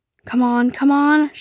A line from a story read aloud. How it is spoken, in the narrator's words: she raised, nervously